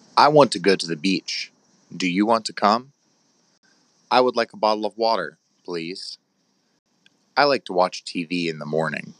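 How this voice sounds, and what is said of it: American North Carolina accent. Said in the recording (Portuguese): “O ... é americano, de, da, da Carolina do Norte. Vocês vão notar também um sotaque um pouquinho diferente dele.”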